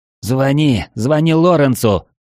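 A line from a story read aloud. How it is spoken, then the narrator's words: Screamed. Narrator (Russian): завопил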